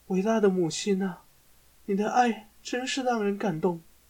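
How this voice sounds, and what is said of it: Emotional, heartfelt voice. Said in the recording (Chinese): “用充满感情的声音说”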